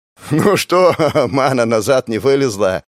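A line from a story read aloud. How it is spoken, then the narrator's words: Laughing question, sailor. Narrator (Russian): смеясь поинтересовался матрос Ахмед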